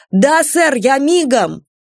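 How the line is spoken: Shouted while running. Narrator (Russian): Артис крикнул уже на бегу

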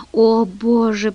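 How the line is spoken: Moan. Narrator (Russian): простонала Генри

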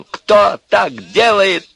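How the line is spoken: Shout. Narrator (Russian): закричал он

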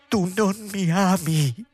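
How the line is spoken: Sobbing exclamation. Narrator (Italian): esclamò singhiozzando

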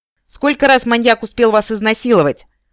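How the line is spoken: Orc shouting in face. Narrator (Russian): прокричал ей прямо в лицо орк из барабан-сарая

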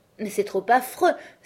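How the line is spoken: Exclaimed. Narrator (French): s'écria Mrs

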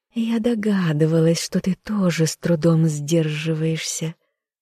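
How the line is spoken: Purring. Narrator (Russian): мурлыкнула

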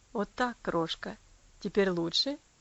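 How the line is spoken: Tender question. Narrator (Russian): ласково спросил он

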